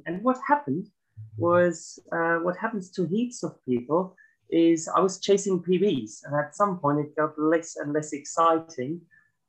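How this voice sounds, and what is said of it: German accent. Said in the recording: “As you can hear from my accent, I'm originally not from here. So I came from Germany”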